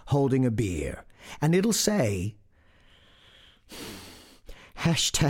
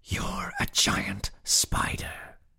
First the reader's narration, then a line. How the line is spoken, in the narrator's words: whispered